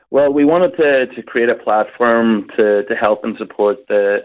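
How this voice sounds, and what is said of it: Irish northern Donegal accent. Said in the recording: “It's Donegal ... Now that I hear your northern accent, I know exactly where you're from”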